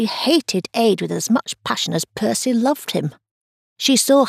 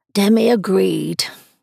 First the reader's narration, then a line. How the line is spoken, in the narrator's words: Delia sighed